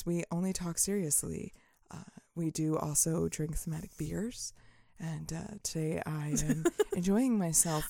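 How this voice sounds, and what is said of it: Calm, controlled public-radio announcer voice. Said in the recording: “NPR voice ... I like my really NPR over voice”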